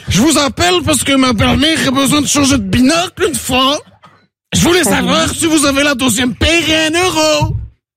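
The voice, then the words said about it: Put-on Belgian French accent. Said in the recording (French): “j'ai le petit accent belge une fois!”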